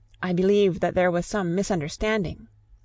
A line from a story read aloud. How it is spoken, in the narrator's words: said Mrs